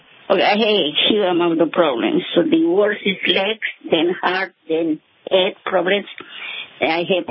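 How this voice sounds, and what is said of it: Colombian accent. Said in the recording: “Where's your accent from? ... Colombia.”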